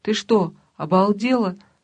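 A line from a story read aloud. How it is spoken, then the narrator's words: Half-smothered shout. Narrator (Russian): закричал полузадушенный голос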